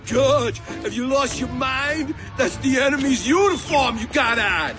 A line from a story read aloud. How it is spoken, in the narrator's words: Spud Bloom yelled out